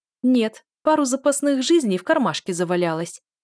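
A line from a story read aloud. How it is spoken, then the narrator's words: Snapping retort. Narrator (Russian): огрызнулась я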